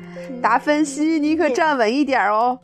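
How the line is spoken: Teasing chuckle. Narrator (Chinese): 玛蒂嘿嘿嘿的笑着说

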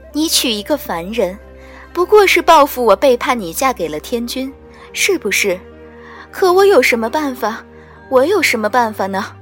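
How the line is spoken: Mournful plaintive voice. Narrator (Chinese): 素锦天妃的声音凄凄切切

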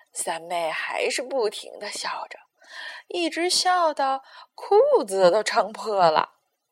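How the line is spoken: Sighing. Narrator (Chinese): 胖胖的仆人们一边叹气，一边对士兵说

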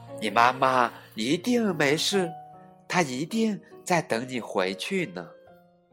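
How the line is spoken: Gentle. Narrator (Chinese): 霸王龙温柔地说

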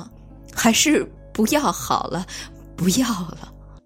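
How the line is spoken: Crying. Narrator (Chinese): 我突然忍不住哭了起来，又说

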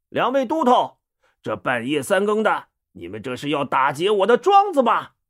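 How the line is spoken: Deliberately loud shout. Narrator (Chinese): 他故意高声叫道

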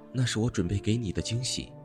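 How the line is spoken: Whispered. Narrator (Chinese): 他低声说道

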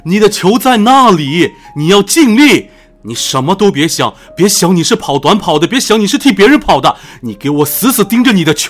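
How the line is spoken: Loud roar. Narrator (Chinese): 大声的对我咆哮

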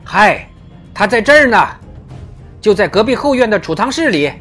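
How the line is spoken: Shouting. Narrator (Chinese): 大喊

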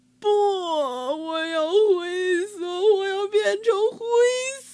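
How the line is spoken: Wailing sobs. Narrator (Chinese): 哈瓦尔嚎啕大哭起来

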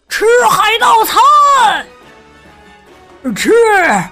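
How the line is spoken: Shouting. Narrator (Chinese): 海盗们大喊道

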